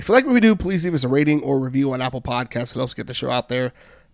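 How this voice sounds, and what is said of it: Hoarse voice. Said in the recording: “yes, I am still hoarse from Tuesday”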